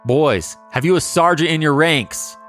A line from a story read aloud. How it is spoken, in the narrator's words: Bloody Bill agrees and hollers